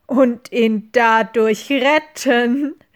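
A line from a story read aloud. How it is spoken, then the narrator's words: Mocking sorceress. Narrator (German): höhnte die Zauberin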